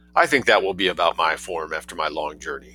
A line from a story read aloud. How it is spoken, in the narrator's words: said Yeovil